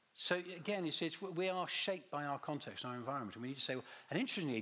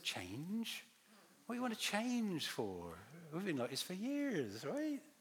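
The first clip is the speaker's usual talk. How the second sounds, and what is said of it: Put-on West Country accent. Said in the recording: “I'm slipping to West Country accent there”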